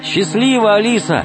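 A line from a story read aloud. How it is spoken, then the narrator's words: Shout from below. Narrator (Russian): крикнул снизу Алеша Наумов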